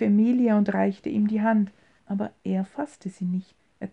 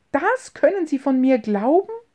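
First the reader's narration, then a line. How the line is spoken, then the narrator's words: Heartfelt cry. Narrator (German): rief Emilchen mit einem Aufschrei des Herzens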